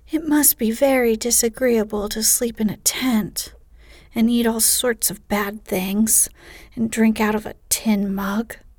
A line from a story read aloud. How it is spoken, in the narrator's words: sighed Amy